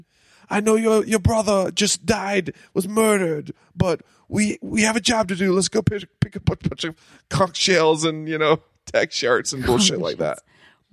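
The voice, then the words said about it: Imitates another person's comic accent. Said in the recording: “Mario Van Peebles' accent in this movie is comically Sebastian”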